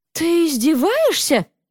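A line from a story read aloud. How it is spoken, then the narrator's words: Exclaiming. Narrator (Russian): воскликнула она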